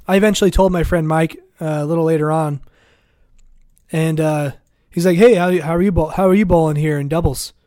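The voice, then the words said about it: Weak, failing hoarse voice. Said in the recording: “My voice is dying.”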